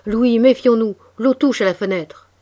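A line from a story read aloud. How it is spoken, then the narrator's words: Shouting. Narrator (French): Pierre me cria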